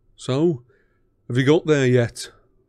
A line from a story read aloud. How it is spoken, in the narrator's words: said George eagerly